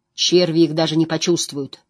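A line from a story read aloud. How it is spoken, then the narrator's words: Guard barking. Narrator (Russian): рявкнул страж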